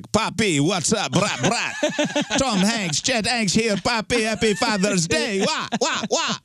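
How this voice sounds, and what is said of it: Fake Jamaican accent. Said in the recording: “raps in a fake Rastafarian accent ... raps in a fake Jamaican accent”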